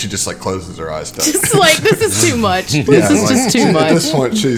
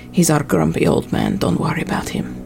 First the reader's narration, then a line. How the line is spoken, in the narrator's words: Ziva would sort of whisper and say